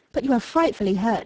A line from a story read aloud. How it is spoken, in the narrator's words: she exclaimed